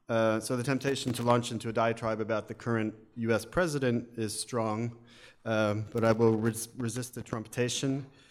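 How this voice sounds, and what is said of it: American accent. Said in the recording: “as you can tell from my my accent, probably, yes, I'm an American”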